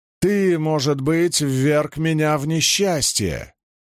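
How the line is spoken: Barked. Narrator (Russian): Он рявкнул на пухлую женщину

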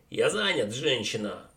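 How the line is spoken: Bark. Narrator (Russian): рявкнул преподобный Уотсон

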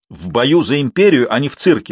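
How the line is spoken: Shouted. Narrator (Russian): закричал судья

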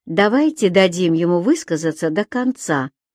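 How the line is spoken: Calm judge. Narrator (Russian): спокойно решил судья

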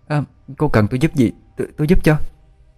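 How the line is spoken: Stammering question. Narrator (Vietnamese): Điệp lắp bắp hỏi

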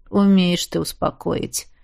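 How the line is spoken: Joyless snort. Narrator (Russian): невесело хмыкнул император

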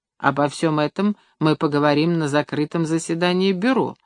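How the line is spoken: Calm, without anger. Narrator (Russian): спокойно, без гнева и возмущения сказал Сизов

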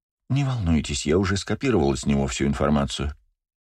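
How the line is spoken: Quiet. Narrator (Russian): тихо сказала

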